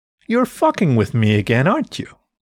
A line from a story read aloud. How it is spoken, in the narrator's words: Calla laughed